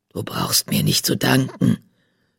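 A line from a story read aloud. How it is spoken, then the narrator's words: Gruff grumble. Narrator (German): brummte Fels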